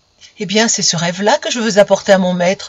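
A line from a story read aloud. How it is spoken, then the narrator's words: Exclaimed. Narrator (French): s'écria-t-il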